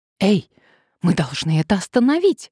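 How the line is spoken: Exclamation. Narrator (Russian): воскликнула Надежда

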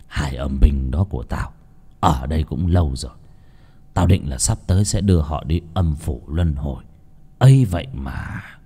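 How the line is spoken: Regretful sighing old man. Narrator (Vietnamese): Ông thầy Hải thì thở dài tiếc nuối

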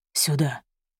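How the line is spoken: Whisper. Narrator (Russian): прошептал

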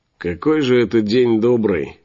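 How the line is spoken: Grumbling. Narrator (Russian): поворчал лысый

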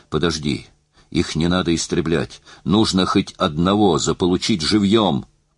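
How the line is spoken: Whisper. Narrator (Russian): прошептал

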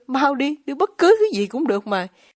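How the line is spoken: Crying out. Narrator (Vietnamese): Ruth lại kêu lên

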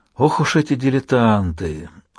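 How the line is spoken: Weary voice. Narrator (Russian): усталым голосом ответил он

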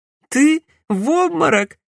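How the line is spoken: Laughing. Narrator (Russian): Бьянка рассмеялась

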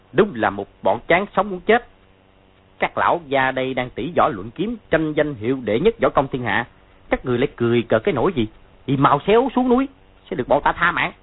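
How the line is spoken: Harsh shout. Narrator (Vietnamese): 6 người kia gằn giọng quát lên

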